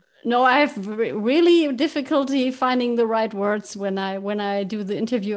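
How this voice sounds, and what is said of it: Slight non-native English accent. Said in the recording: “you have a little accent, but it's not too strong”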